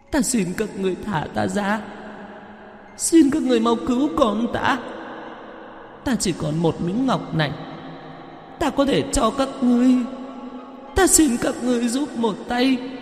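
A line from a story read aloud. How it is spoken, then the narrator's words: Woman's desperate wailing. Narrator (Vietnamese): người đàn bà ... kêu gào ở bên ngoài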